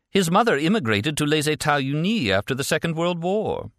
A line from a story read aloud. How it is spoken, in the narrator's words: She added brightly